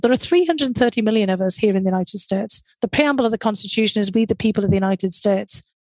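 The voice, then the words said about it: Speaks with a noticeable accent. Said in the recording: “a nice accent ... you got the nice accent compliment”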